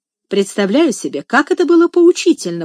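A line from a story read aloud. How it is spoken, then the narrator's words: Exclaimed. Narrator (Russian): воскликнул Сен-Клер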